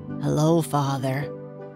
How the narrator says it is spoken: she said quietly

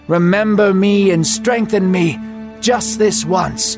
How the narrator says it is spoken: shouted

